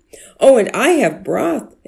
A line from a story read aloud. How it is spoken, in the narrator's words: exclaimed another neighbor